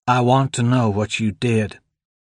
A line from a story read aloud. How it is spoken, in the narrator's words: he said